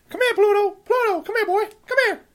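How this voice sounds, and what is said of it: Cartoon mouse character voice. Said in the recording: “I can actually do a very good impression of Mickey Mouse ... That's not as bad as I was expecting ... that is pretty damn good”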